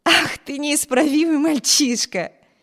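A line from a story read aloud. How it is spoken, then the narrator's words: Laughing. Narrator (Russian): рассмеялась Эми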